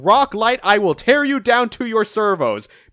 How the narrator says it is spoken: Roll screaming

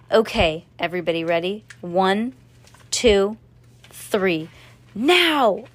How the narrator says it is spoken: Cass ... shouted

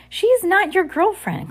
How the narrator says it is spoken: Klaus cried

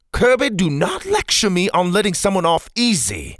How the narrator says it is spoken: Pa snapped

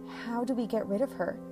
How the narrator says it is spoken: Lindsay whispered

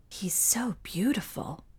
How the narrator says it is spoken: whispered one voice

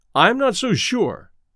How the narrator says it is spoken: said Jensen

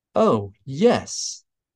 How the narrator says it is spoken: Platt said happily

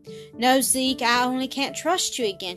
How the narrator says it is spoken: said, turning away with a slight sigh over her failure to win him from his inborn indolence

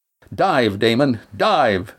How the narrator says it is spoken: Astraea shouted

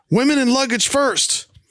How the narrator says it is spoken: Thurston yells out

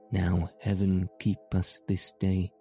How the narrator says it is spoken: said he

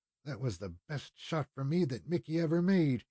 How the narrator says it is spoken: he muttered

